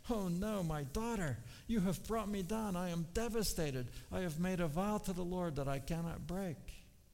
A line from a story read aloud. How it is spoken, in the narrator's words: he tore his clothes and cried